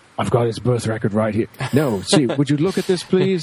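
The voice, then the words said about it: Bad impression of a TV character. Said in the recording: “worst Slade impression ever”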